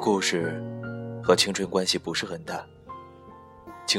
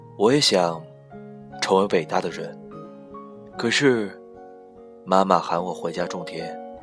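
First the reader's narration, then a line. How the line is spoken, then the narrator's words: Flat, detached. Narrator (Chinese): 张平……淡淡的说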